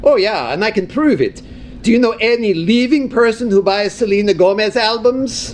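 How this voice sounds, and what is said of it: Norwegian-sounding put-on accent. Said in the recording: “that's quite the accent ... You don't sound like... ... I got stuck on the Norwegian boat ride at Epcot for a couple of hours. And by the time I got off, this was permanent”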